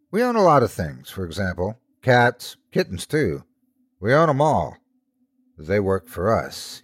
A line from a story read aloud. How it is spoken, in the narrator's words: he proudly said before his voice went down to a somber tone